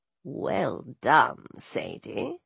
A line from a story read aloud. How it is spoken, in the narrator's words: Bast purred